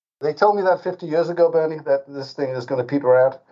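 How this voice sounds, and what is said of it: Speaker's own distinctive accent. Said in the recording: “my funny accent”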